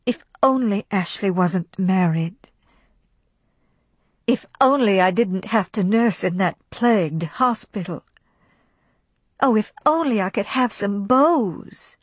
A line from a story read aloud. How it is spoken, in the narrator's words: she sighed and thought